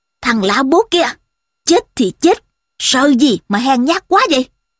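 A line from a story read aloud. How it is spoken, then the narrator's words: Ringing loud shout. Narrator (Vietnamese): một giọng sang sảng quát lớn lên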